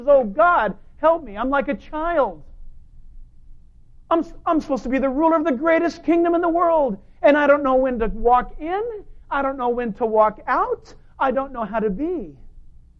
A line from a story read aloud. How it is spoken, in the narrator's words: Solomon fell on his face and he cried out and he says